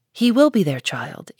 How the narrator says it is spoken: answered her mother

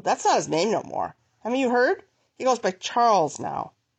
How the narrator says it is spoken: He growled

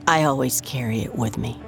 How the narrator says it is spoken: she said

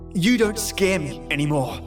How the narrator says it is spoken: I said, my voice filled with defiance and anger

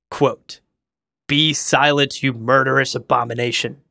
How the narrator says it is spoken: Jessica snapped

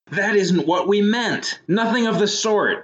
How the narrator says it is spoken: shouted Mrs

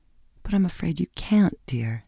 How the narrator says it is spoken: she said in an unsteady voice

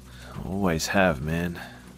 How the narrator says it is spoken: he groaned

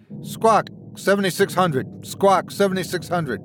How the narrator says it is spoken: she shouted

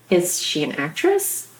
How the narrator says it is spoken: My voice came out cracked, soft

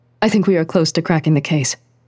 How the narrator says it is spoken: Miyako said, speaking quickly

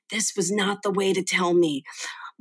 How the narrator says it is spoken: his mother whispered to him

